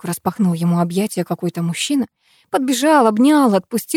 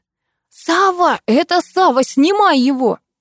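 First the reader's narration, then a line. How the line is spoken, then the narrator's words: Sudden shout. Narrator (Russian): кто-то как закричит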